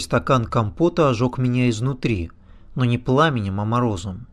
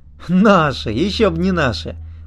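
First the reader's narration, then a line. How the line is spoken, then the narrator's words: Boy chuckling. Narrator (Russian): парнишка хохотнул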